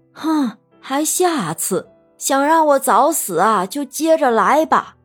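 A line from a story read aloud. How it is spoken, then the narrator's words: Sarcastic, mocking cry. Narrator (Chinese): 冷雪茹阴阳怪气的叫道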